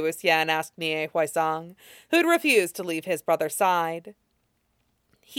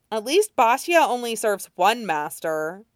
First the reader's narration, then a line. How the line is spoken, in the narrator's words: Nie Huaisang said sharply